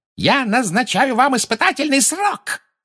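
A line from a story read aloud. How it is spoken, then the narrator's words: Shrieking. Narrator (Russian): завопила Амбридж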